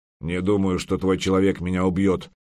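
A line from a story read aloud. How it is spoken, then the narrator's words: Grumbling. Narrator (Russian): проворчал Олаф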